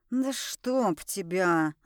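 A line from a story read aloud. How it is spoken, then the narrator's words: Hissing man. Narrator (Russian): зашипел на меня мужчина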